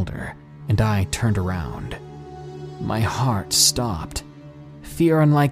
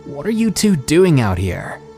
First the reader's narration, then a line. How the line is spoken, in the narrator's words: yelled